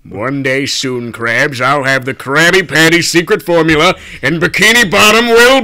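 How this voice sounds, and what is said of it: Plankton character voice. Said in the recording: “Give us your Plankton impression ... he had a good one earlier”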